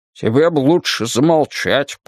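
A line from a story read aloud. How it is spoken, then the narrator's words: Grumbling. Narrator (Russian): пробурчал Уитни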